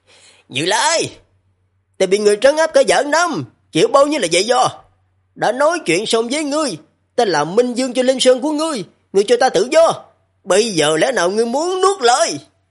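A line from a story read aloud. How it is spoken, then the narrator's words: Shouting loudly. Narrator (Vietnamese): hét lớn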